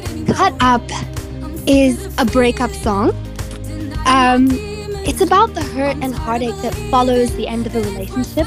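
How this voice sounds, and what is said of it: Voice sounds sick, under the weather. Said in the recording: “You're going to have to excuse my voice. I'm a little bit under the weather at the moment”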